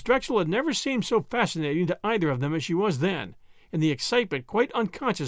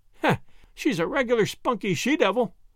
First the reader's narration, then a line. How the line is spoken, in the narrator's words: Miss Drexel laughed agreement